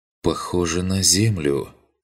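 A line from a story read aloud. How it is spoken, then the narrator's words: Uncertain drawl. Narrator (Russian): неуверенно протянул Арлинг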